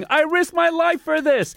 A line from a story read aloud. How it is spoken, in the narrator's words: Tom Kopke celebrating by shouting